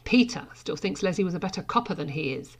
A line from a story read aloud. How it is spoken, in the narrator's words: Sarah smiled sharply